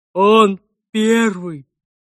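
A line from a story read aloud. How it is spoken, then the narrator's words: Monster, through gritted teeth. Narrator (Russian): сквозь зубы процедил монстр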